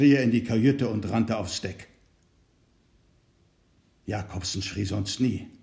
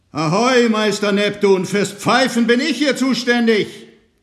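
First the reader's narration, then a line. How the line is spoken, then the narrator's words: Shouting. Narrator (German): schrie er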